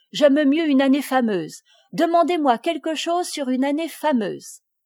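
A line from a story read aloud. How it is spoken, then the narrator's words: Exclaiming. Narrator (French): s'écria Henri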